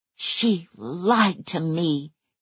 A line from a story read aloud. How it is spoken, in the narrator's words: hissed Underhill